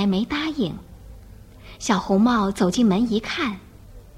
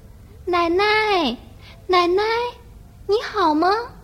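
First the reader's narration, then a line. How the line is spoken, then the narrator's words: Loud puzzled child's call. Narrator (Chinese): 小红帽发现门开着，觉得很奇怪，就大声叫了起来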